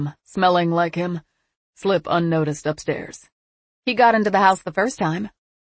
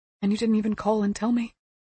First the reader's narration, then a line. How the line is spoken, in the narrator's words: he whispered